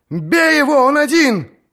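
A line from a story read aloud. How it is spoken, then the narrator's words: Shout. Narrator (Russian): крикнул кто-то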